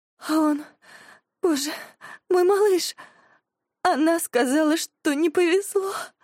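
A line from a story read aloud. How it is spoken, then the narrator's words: Whispering, then sobbing. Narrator (Russian): шепчет Мия и начинает рыдать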